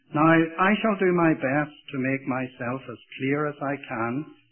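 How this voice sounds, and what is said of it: Irish accent. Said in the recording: “If you have problems with my accent ... If a few Irishisms come in here and there”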